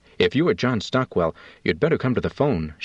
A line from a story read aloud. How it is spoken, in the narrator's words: she said